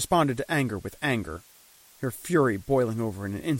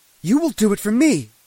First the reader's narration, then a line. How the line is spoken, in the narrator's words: she shouted in my face